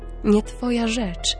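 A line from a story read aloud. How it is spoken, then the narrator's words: Calm reply. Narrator (Polish): spokojnie odpowie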